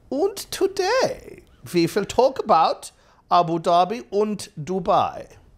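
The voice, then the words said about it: Put-on German accent. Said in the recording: “In a German accent.”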